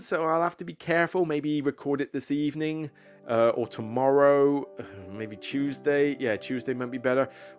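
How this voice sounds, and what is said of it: Slightly strained, fading voice. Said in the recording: “my voice is a little going ... I think I just better go and rest my voice”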